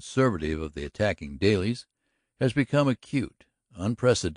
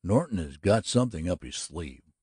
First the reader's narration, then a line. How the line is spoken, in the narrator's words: growled the hotel keeper